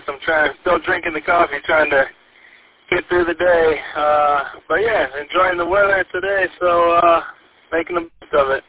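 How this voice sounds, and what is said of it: Tired-sounding voice. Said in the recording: “I'm a little tired. You probably can hear it in my voice.”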